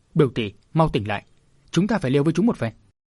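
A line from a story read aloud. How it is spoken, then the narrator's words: Urgent, shouting. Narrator (Vietnamese): Đỗ Ngọc thấy sự tệ không hay, vội điểm vào tình môn đại huyệt của Minh Hà, đồng thời kêu lên như quát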